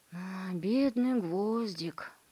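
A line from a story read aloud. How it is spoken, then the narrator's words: Sighing. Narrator (Russian): вздохнул он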